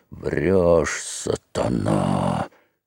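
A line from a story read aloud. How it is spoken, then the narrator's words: Hoarse straining voice. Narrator (Russian): хрипел Федька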